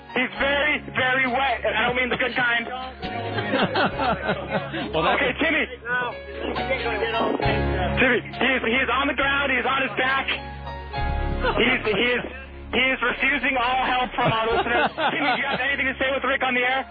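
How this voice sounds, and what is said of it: Bob Costas impression. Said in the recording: “I'm going to do a Bob Costas impression”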